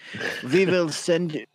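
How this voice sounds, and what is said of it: Put-on German accent. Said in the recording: “That was a German accent.”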